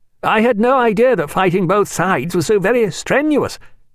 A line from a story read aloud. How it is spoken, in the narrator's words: said Stephen, in that rather loud voice usual after heavy gunfire